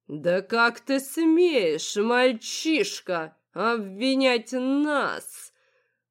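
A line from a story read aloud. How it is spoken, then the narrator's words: Theatrical male growl. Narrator (Russian): Прорычал все тот же мужчина настолько наигранно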